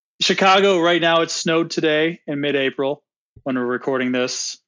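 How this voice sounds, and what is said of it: American accent. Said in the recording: “you can probably hear my American accent painfully coming through. I'm not Australian”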